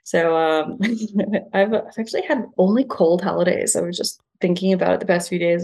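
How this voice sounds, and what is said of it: Slight non-Australian accent, twang. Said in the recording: “a bit of a slight non-Aussie twang in your accent”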